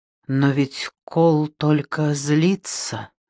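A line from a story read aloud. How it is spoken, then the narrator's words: Muttered. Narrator (Russian): пробормотала она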